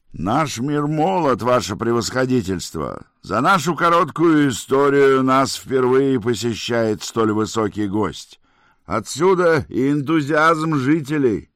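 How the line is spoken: Shouting right in ear. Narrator (Russian): Прямо в ухо прокричал Гардин

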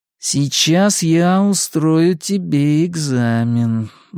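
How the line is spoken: Slow thoughtful voice. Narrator (Russian): заговорил Генри все тем же раздумчивым голосом

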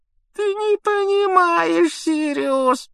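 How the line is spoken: Whimpering. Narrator (Russian): проскулил Петтигрю

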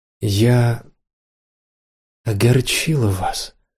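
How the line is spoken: Very soft question. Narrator (Russian): переспросила Ирена так мягко, как только могла

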